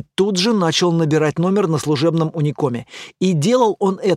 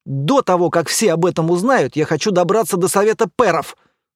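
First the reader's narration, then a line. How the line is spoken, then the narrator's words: Angry hiss. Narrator (Russian): зло прошипел Эр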